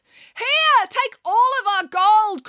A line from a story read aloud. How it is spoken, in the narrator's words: cried the mayor